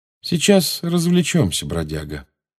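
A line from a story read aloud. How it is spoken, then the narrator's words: Calm. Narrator (Russian): спокойно сказал Джеймс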